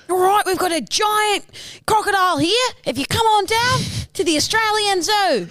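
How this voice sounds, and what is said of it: Steve Irwin impression, Australian accent. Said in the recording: “It was still very reminiscent of your voice. ... I love Steve Irwin.”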